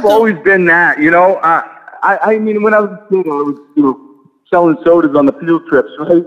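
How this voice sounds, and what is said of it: New England accent. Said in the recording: “it's definitely evident in your accent, for that New England accent”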